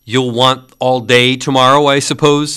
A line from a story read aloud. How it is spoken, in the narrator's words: said Scrooge